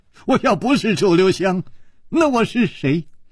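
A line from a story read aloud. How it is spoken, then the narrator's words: Wry smile. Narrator (Chinese): 楚留香苦笑着说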